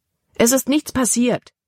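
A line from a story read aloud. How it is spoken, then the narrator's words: Exclaimed. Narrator (German): rief Libby aus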